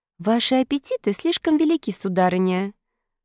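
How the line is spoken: Mocking remark. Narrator (Russian): насмешливо заметила красавица Стелла

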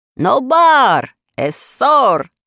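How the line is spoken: Shouting. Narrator (Russian): закричал

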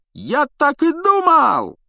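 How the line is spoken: Joyful yell. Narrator (Russian): радостно завопил Стэн

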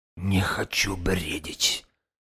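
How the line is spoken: Whispering. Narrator (Russian): шептал он

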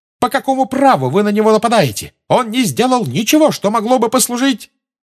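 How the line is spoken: Shrieking in unison. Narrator (Russian): Гермиона, Парвати и Лаванда дружно завизжали

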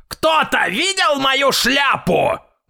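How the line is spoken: Grandfather's loud shout. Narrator (Russian): громко крикнул дедушка

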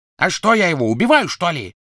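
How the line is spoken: Bark. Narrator (Russian): рявкнул Крэб

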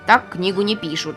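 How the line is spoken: Grumbled. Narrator (Russian): проворчал Маффин

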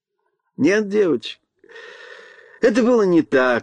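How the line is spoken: Laughing. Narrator (Russian): рассмеялся Чарли

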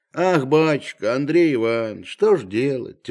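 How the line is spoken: Heavy sigh. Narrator (Russian): тяжело вздохнув, начал Захар

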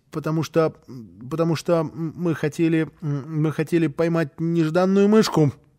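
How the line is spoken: Sorry, stammering child. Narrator (Russian): Малышу было очень жаль мышеловки, и он сказал, запинаясь

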